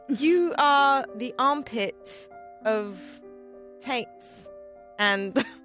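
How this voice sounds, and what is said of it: Mary Poppins-style British accent. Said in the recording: “do it in a British accent ... I'm just going to speak like Mary Poppins the whole time”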